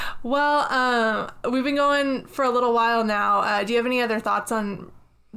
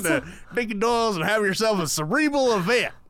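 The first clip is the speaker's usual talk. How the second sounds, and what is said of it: Put-on accent imitating another person. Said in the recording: “I like how you adopted your Dickie Doyle accent for that part.”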